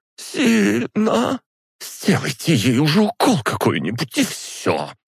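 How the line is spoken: Angry female hiss. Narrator (Russian): Сердито прошипела женщина

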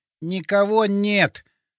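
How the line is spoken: Forced out. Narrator (Russian): выдавил он

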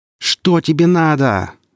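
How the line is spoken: Frightened shout. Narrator (Russian): заорал сталкер, ощущая, как по спине и рукам бегут мурашки, а волосы на затылке шевелятся

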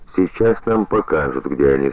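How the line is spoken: Mysterious, slightly solemn. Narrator (Russian): загадочно и чуть торжественно говорит Гриша

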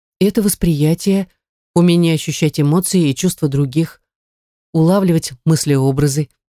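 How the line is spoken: Uncertain reply. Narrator (Russian): неуверенно ответила

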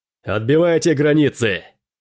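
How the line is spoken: Shout. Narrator (Russian): закричал Дрейк

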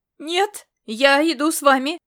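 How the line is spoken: Shouted, breaking into falsetto. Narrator (Russian): выкрикнул Бурага, сорвавшись на тонкий фальцет

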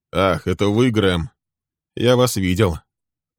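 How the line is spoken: Cold. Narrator (Russian): холодно произнес он

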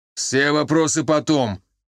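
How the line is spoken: Commanding bark. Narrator (Russian): тоном, не подразумевающим возражений, рявкнул майор

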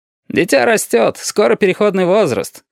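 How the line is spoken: Snorting. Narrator (Russian): хмыкнул красный шар

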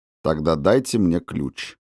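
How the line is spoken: Calm request. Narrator (Russian): спокойно попросил Макферлин

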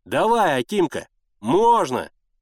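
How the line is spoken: Shouting. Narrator (Russian): крикнул Генка

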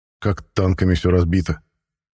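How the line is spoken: Grumbling. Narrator (Russian): проворчал

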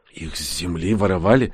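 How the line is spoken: Whispering. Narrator (Russian): проговорил Данила шепотом

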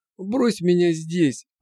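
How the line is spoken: Moan. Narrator (Russian): простонал

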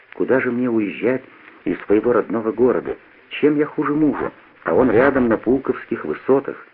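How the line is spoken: Quiet. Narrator (Russian): А она мне, понимаешь, отвечает тихо так

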